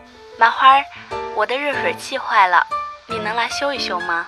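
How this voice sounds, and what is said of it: Woman's voice on the phone. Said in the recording (Chinese): “电话里有个女人的声音说”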